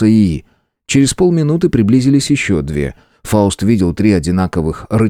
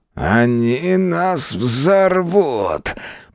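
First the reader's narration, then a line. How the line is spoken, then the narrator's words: Creaky, strange voice. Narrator (Russian): проскрипел тот не своим голосом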